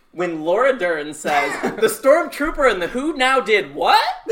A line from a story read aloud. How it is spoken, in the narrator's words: I screamed